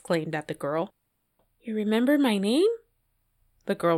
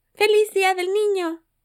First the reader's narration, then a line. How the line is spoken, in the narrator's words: Anna exclaimed